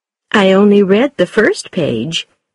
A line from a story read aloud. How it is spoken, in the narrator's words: said Mrs